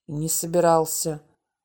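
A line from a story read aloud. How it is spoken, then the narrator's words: Stubborn grumble. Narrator (Russian): буркнул Володя, упрямо не глядя в монитор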